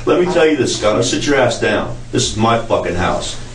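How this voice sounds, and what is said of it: Slight Southern American accent. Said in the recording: “I got a little southern accent”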